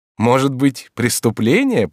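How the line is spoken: Laughing. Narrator (Russian): прибавила она, смеясь

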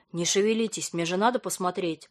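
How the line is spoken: Grumbling. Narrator (Russian): проворчал мужчина

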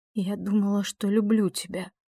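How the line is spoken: Trembling voice. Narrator (Russian): дрожащим голосом сказала она

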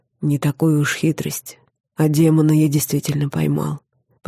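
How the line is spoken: Whisper in the ear. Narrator (Russian): прошептал он мне на ухо

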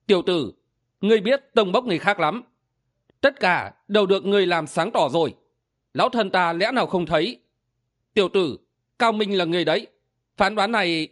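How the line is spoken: Smiling. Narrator (Vietnamese): Song Ngũ Nương mỉm cười nói

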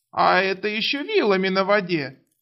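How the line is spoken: Hysterical giggle. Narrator (Russian): истерично хихикнул Требор

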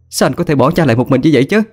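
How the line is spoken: Shouting reproach. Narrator (Vietnamese): Hà nhìn thẳng mặt anh mình mà hét lên

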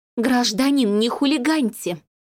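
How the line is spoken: Woman, through teeth. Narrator (Russian): процедила тетка

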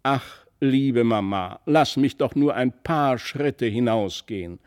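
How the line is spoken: Called out loudly. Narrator (German): so rief er laut

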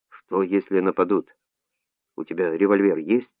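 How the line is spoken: Whisper. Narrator (Russian): Жано шептал

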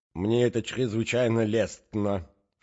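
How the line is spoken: Lisping prince. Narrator (Russian): шепелявил князь

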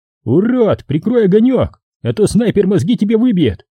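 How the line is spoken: Shout from darkness. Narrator (Russian): Из темноты кто-то закричал

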